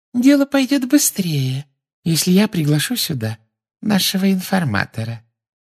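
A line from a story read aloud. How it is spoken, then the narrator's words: Silky voice from behind. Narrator (Russian): шелковым голоском сказала из-за его спины Амбридж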